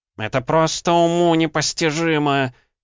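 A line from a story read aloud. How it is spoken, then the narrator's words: Continued yelling. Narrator (Russian): продолжал вопить Выхристин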